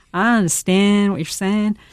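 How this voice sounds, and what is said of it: Odd put-on accent. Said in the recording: “in this sort of accent, that I had no idea where this accent came from”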